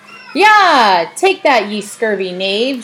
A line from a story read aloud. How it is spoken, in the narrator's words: shouted the thing triumphantly